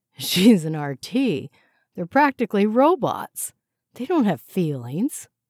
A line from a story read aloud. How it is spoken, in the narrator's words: laughed nervously